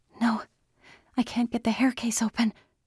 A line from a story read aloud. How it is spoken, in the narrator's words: Andy whispered fiercely into her chest